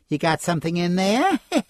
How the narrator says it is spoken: he laughed

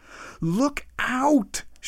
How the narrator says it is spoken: shouted Professor Wyatt

